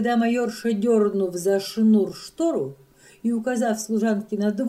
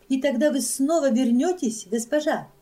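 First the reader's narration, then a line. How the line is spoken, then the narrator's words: Plain. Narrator (Russian): спросила служанка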